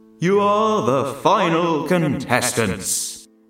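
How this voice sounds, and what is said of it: Booming game show host voice. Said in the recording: “It was a big, ludicrous game show voice. It boomed through the unseen speakers”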